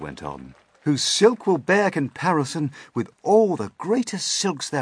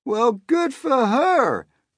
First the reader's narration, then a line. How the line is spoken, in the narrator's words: the cops cried out